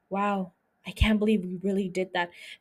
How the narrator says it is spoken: Roderick whispers to Madeline

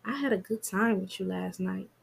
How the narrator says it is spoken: she whispers in his ear

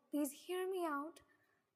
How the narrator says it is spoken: Ginny pleaded

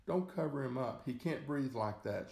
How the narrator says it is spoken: cried

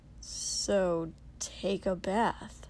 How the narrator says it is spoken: Kotsky drawled

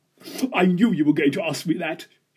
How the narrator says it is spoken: she said, and roared with laughter

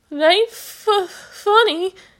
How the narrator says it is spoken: he went on, his voice now definitely shaking with sobs

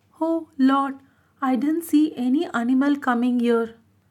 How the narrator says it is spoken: The poor red monkey said in a feeble voice

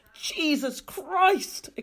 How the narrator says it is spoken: exclaimed Thomas Clayson

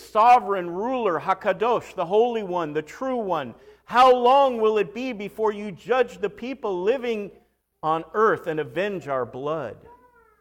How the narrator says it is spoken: They cried out in a loud voice

